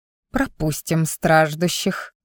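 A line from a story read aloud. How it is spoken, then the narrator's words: Hissed. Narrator (Russian): прошипела я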